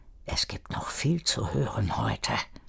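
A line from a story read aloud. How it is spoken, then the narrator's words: Whispered. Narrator (German): Alphonse flüsterte beim Vorbeigehen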